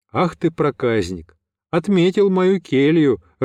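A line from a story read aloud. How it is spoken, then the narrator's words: Laughing. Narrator (Russian): рассмеялся я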